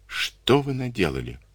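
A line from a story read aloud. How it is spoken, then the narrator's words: Quiet question, woman. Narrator (Russian): тихо спросила женщина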